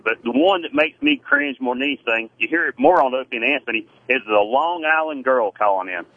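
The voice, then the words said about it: Southern American accent. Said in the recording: “I know I'm Southern. People make fun of my accent”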